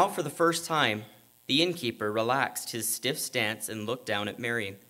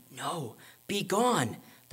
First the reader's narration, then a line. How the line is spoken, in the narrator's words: the prompter whispered from the wings